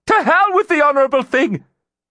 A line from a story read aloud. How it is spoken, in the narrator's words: She shouted